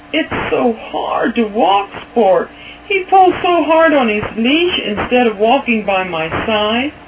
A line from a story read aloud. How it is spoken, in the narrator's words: Kirk groaned to his mother